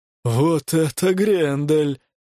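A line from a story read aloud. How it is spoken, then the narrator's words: Breathed, almost reverent. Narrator (Russian): выдохнул Хаук почти благоговейно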